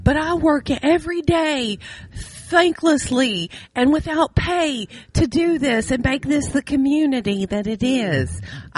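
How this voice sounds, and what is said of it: Mocking funny voice. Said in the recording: “I'm saying that in my funny voice because I don't believe that way”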